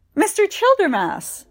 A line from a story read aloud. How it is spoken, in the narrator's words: Segundus cried